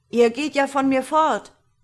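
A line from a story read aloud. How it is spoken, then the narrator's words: Giant calling out. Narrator (German): rief der Riese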